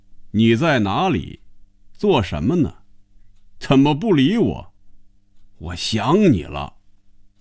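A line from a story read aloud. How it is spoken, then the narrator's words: Reading aloud loudly. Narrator (Chinese): 开始大声念着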